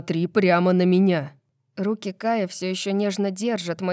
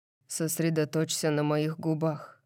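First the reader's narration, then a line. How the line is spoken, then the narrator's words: Tender whisper. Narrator (Russian): шепчет он ласковым голосом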